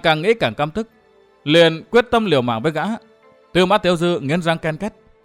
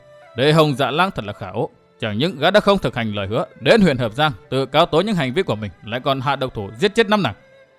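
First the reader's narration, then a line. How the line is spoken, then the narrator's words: Muttering. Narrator (Vietnamese): Gã lẩm bẩm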